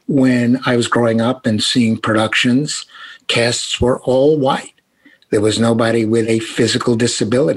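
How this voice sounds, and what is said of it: Brooklyn accent. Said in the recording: “I'm speaking with a Brooklyn accent. That's genuine.”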